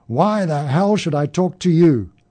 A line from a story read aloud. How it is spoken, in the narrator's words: roared above the clacking wheels